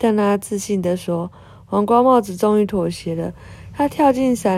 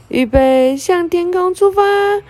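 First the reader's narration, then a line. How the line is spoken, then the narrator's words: Happy cry. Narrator (Chinese): 贝洛也开心的叫了一声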